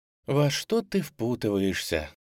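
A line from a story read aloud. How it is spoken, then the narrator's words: Sigh. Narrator (Russian): вздохнула Утар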